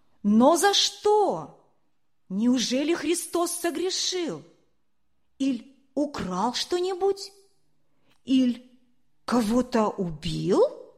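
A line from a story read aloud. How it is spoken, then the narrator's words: Shout from crowd. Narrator (Russian): Из стоящей толпы кто-то крикнул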